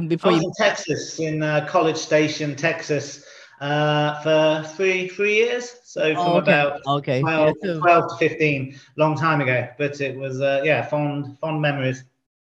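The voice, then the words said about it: Strange English accent with Texan tinge. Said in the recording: “you still got the accent ... I've got a strange accent. Imagine being an English kid going to Texas and then coming back three years later, it gives you a funny accent.”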